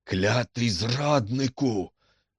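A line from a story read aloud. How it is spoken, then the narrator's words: Hissed through teeth. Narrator (Ukrainian): просичав крізь зуби МакГінті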